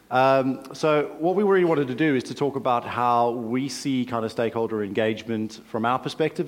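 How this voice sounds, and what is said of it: South African drawl. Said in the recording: “my drawl, my South African drawl”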